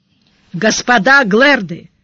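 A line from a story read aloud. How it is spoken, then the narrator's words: Loud metallic voice. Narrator (Russian): громко сказал Сварог, тщательно подпустив голос металла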